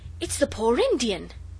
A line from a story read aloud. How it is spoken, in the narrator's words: Noel cried